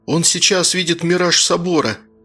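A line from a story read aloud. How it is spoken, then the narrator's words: Spellbound whisper. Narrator (Russian): зачарованно прошептал Ромка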